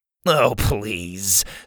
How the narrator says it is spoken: Sawyer scoffed

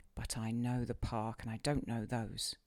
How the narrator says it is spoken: she murmured to herself

